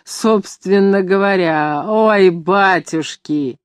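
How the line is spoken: Repeated through laughter. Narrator (Russian): хохотать, повторяя

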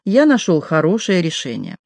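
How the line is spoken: Solemn announcement. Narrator (Russian): Виктор Машков, торжественно объявив

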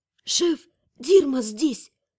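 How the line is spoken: Whisper. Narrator (Russian): шепнула я

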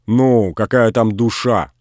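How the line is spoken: Rude. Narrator (Russian): грубо сказала Грушина

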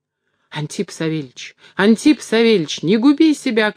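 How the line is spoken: Alarmed shout from afar. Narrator (Russian): кричал ему угадавший его намерение, далеко отбежавший Дорофей

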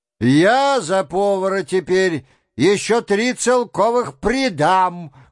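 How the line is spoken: Overly loud, insistent. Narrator (Russian): громко подхватил другой голос, слишком даже громко, громко с настойчивостью

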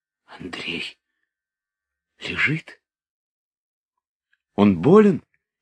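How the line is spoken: Frightened question. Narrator (Russian): испуганно спрашивала Наташа

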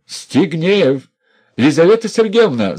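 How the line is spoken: Shouted. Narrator (Russian): закричал он

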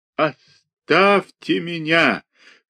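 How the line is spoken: Strange trembling shout. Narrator (Russian): крикнул он не своим голосом, багровее и дрожа всем телом

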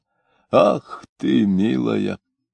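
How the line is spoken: Muttering. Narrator (Russian): Он бормотал

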